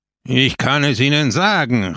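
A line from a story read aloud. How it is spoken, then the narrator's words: Call. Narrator (German): rief Peppone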